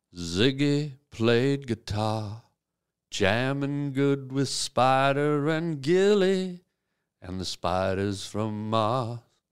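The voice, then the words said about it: Smooth velvety crooning voice. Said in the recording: “in my velvety voice”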